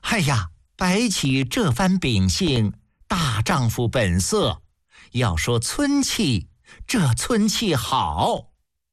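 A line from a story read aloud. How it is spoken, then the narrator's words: Delighted laughing praise. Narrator (Chinese): 宣太后听得大是高兴，笑着赞叹道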